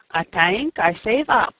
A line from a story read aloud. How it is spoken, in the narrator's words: she said with a giggle